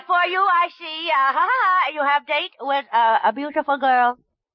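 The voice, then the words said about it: Put-on Japanese accent. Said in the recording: “I am a Japanese mind reader. ... I see plenty trouble ahead. ... with this accent.”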